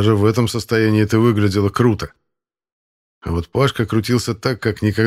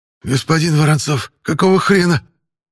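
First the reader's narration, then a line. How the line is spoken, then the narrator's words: Hoarse wheeze while vomiting. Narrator (Russian): прохрипел Пашка, опустошая желудок окончательно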